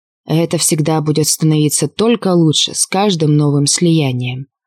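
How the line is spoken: Hoarse mutter. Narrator (Russian): пробормотал Ресве осипшим голосом

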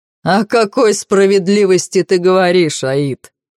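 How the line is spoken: Mocking. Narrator (Russian): насмешливо качает головой Зевс

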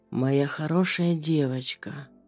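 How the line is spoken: Hoarse whisper. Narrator (Russian): хриплый шепот

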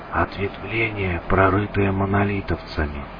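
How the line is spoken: Whisper. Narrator (Russian): прошептал меченый

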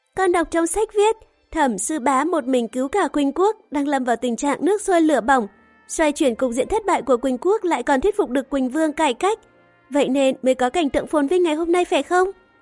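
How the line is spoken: Smiling, continuing. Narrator (Vietnamese): mỉm cười nói tiếp

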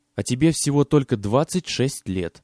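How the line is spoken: Plain. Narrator (Russian): сказал наконец Джордж

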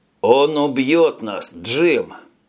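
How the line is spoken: Hoarse rasp. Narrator (Russian): прохрипел с заднего сиденья Тони

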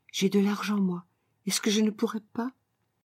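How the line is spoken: Said quietly. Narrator (French): je lui dis tout bas

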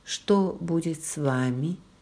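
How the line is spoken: Quiet question. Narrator (Russian): тихо спросила

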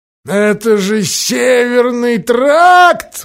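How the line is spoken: Shrill squeal. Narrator (Russian): взвизгнул Кишкус

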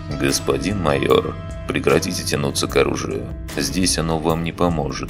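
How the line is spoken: Calm statement. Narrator (Russian): спокойно заявил Ланс

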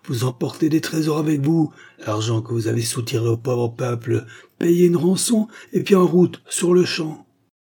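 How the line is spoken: Exclaimed. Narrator (French): s'écria Barbashko

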